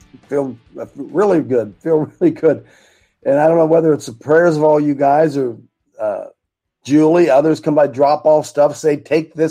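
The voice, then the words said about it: Raspy, hoarse voice. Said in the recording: “I might sound a bit raspy to you today ... I just don't sound really good. Probably the drainage”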